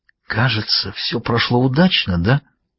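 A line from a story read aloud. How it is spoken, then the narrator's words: Conspiratorial whisper. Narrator (Russian): с заговорщицкой улыбкой и прошептал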